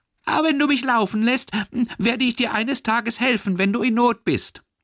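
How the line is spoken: Small mouse squeaking. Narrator (German): Das Mäuslein piepste

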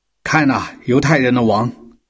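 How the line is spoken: Shouting. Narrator (Chinese): 这伙人中有一个喊道

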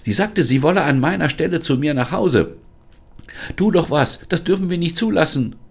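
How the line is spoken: Desperate cry. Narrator (German): rief Lisa verzweifelt

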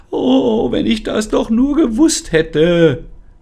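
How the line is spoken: Dejected wailing. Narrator (German): jammerte die Sonnenblume, sie sah wirklich sehr geknickt aus

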